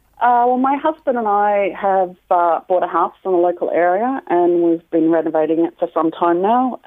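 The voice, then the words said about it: Australian accent. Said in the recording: “the accent ... she thought it was an English accent ... I'm actually from Australia ... so the accent, she was right about a different accent ... somebody's confused my accent for English”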